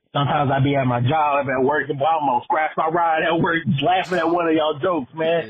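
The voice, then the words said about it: Atlanta Southern American accent. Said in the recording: “that was an Atlanta ... accent?”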